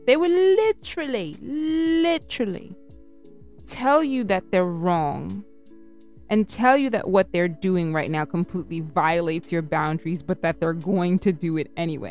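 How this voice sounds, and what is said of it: British accent slipping in. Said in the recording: “my British accent is coming out”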